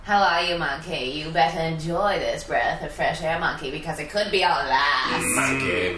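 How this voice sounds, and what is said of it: Imitates another person's voice. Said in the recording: “You know what my impression is? It sounds like, hello, monkey.”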